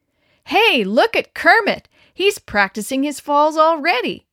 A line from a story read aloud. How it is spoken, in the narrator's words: yelled